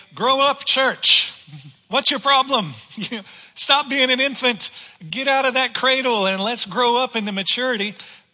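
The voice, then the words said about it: Grand preacher voice. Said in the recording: “in my great pastor voice”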